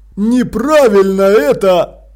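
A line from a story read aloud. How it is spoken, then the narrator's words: Grumble. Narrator (Russian): проворчал Страппи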